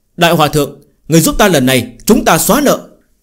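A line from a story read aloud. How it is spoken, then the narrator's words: Joyful cry. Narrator (Vietnamese): Phương Hành trong lòng mừng rỡ kêu lên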